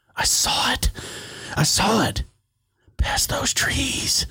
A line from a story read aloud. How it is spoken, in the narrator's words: he whispered excitedly